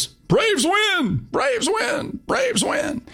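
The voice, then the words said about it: Imitates another person's voice. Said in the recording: “my best Skip Carey imitation”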